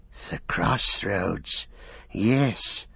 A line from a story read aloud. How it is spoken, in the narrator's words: whispered Gollum